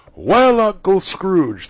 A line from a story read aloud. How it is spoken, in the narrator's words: cried